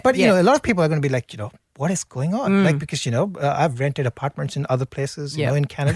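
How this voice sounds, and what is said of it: Immigrant's non-native English accent. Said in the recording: “other immigrants, I'm presuming, given your accent”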